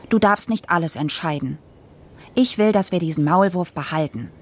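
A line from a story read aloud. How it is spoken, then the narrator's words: Stern. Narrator (German): sagte ich streng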